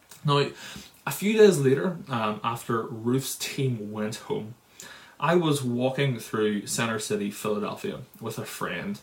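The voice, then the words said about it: Northern Irish accent. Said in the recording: “I heard your accents. Are you guys from Northern Ireland? ... Yeah, we are from Northern Ireland.”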